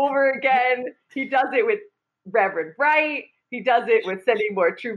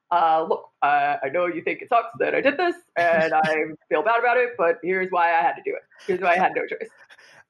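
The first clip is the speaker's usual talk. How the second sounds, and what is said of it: Barack Obama impression. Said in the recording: “my Obama impression ... You just did one ... That was a good one.”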